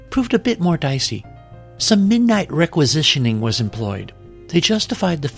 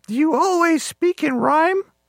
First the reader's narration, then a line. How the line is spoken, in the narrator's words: She laughed